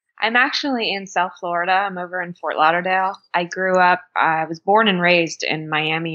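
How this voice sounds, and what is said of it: Not a New Zealand accent. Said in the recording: “your accent isn't your typical Kiwi accent.”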